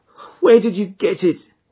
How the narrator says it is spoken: groaned

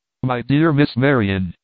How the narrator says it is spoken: he exclaimed

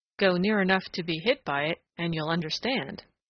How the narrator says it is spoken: said Old Mother Nature dryly

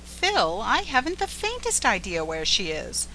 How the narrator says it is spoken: said the girl gently

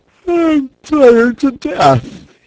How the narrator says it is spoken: he wailed

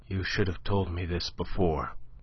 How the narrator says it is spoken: she said in a dull voice that she strove to render steady

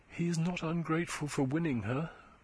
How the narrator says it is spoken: whispered Eustacia

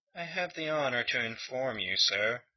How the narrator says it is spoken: he said stiffly

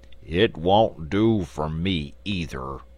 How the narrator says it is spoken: grumbled the Sawhorse

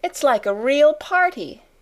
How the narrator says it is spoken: cried Ermengarde

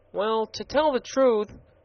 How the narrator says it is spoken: said the gardener in a perplexed tone of voice

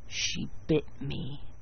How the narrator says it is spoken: he murmured

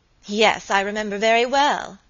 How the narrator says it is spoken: answered Lucy Audley, with a bitter laugh

